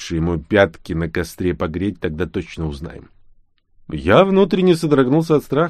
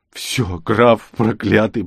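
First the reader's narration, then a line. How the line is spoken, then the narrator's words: Sobbing. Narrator (Russian): продолжал рыдать я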